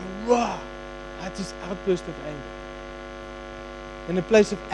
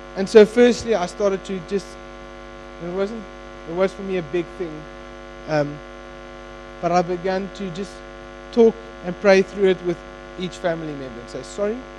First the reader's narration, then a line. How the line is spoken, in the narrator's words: I shouted that loud